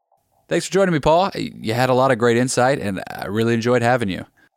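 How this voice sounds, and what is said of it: Southern American accent. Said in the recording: “you have like the perfect Southern accent of Southern charm”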